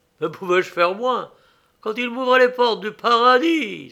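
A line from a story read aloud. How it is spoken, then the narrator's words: Exclaiming. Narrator (French): s'écria-t-il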